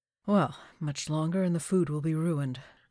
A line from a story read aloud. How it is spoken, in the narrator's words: Crowley sighed